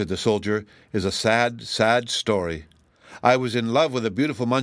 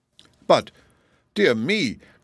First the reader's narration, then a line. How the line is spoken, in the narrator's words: cried the Tin Woodman, sadly perplexed